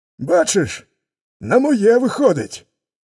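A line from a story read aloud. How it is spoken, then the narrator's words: Wolf shouting. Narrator (Ukrainian): крикнув вовк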